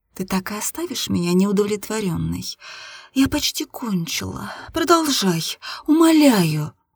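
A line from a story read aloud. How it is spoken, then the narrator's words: Gentle pleading. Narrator (Russian): ласково попросила я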